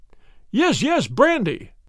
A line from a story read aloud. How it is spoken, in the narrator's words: he cried